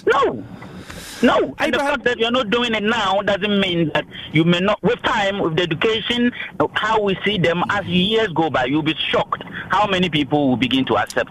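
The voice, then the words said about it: Ghanaian accent. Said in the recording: “I love the Ghanaian accent. It's just one of the best. ... Don't you lose that accent ... Beautiful accent.”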